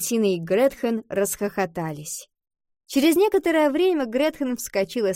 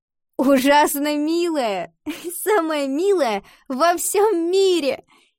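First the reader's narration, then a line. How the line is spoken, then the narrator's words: Laughing. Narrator (Russian): засмеялась Ива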